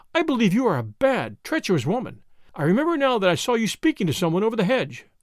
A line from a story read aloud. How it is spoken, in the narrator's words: cried her mistress